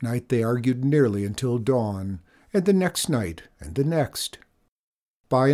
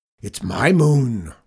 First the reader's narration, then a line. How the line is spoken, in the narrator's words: roared Zeke